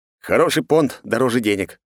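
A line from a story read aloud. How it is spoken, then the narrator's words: Wry snort. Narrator (Russian): хмыкнул я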